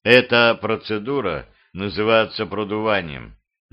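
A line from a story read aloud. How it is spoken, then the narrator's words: Quiet reply. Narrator (Russian): негромко ответил Росин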